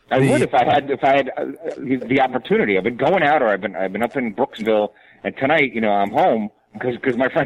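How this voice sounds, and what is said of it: New York accent. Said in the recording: “You hear that New York accent coming out as he tries to get defensive? ... Yeah, I heard. I heard it exactly.”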